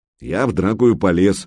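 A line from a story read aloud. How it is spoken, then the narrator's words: Gloomy. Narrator (Russian): мрачно произнес Санек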